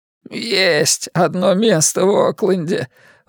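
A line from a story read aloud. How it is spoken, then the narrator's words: Sullen mutter. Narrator (Russian): угрюмо буркнул он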